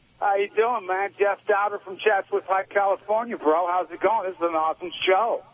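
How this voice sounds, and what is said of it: Put-on fake voice. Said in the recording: “Is this a new fake voice? ... the worst fake voices in the history of crank calling”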